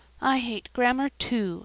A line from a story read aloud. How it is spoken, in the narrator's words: sighed Sarah Ray